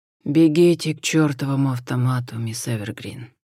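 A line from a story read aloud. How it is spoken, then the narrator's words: Flat, dead-voiced command. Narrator (Russian): мертвым голосом велел Хосе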